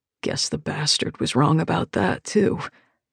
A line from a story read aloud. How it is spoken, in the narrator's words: he mutters